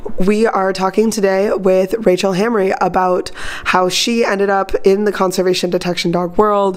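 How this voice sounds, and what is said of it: Sick-sounding voice. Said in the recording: “I am still sick, so I do apologize for my voice”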